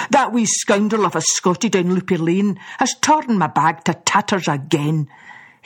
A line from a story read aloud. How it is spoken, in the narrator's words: he grumbled